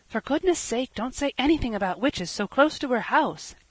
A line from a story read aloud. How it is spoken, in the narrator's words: gasped Felicity